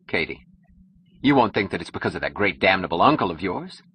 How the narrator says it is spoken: She laughed

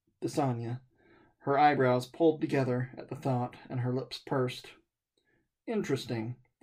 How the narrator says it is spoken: the man mumbled

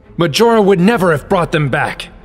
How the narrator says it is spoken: Sheik yelled

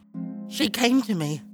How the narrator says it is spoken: Mirage replied quietly

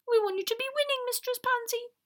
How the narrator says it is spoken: Nissy said anxiously

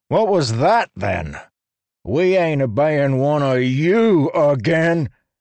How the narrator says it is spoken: another bellowed

